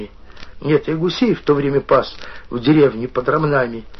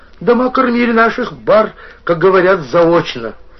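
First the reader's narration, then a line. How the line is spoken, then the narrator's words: Mocking painter. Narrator (Russian): сказал насмешливо маляр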